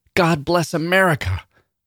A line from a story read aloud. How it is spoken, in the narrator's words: one of them hollered